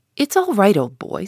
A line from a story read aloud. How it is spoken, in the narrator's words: said Gus, laughing